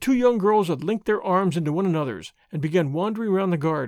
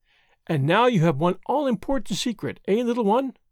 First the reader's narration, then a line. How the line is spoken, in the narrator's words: said Marguerite, merrily